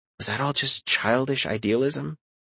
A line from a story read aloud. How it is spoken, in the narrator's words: I sighed